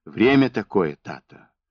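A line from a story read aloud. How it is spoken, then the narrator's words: Gentle, seemingly obedient objection. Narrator (Russian): Ласково, будто послушно, возразил Евхим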